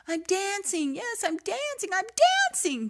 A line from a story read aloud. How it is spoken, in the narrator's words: Gerald cried